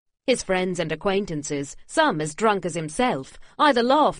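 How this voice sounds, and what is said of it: Usual voice. Nothing is said of it.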